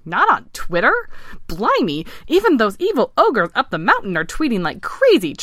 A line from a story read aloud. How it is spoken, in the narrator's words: chirped Vince